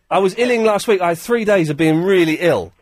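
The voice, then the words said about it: Hoarse, sick-sounding voice. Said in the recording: “I'm losing my voice ... You sound like you're illing.”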